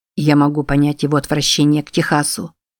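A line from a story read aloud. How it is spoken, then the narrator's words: Plain. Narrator (Russian): сказал он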